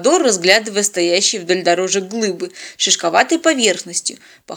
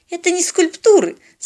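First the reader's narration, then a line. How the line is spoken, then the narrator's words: Superior giggle. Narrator (Russian): с ноткой превосходства хихикнула Полина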